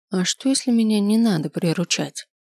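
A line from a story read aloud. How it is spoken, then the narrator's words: Quiet question. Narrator (Russian): тихо спросил я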